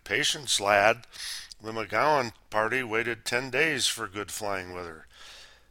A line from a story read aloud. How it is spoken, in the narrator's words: Chuckling, Sheldon replied